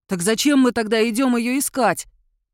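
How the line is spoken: Near howl. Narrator (Russian): почти взвыл Душан

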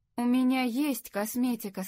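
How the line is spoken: Plain. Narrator (Russian): сказала Лори

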